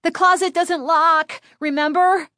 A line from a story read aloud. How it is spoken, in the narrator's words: Chris cried, struggling to hold on to the wriggling dummy